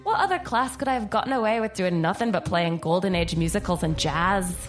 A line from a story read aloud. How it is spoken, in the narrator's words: She laughed to herself